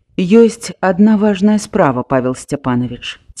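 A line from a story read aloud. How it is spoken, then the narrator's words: Quiet. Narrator (Belarusian): ціха сказаў ён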